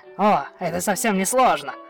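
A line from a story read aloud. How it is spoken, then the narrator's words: Little dog speaking. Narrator (Russian): сказал песик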